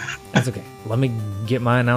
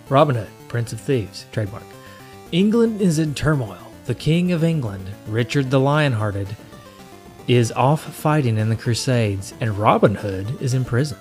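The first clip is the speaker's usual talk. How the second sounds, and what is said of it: Dramatic announcer voice. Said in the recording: “announcer voice”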